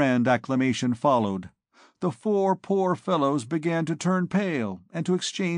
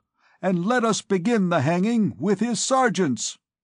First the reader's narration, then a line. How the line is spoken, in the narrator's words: cried the people